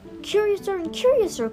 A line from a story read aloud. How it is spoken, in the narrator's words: cried Alice